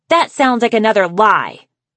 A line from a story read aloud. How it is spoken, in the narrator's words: Sundew yelled